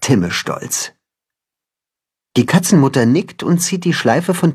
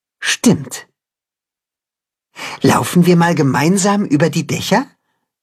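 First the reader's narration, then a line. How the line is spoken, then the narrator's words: Plain question. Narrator (German): fragt Timme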